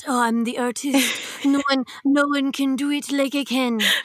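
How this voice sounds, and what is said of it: Put-on accent. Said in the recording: “That's a great accent.”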